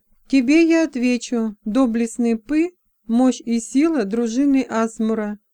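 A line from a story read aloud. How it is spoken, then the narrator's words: Slow. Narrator (Russian): медленно проговорила принцесса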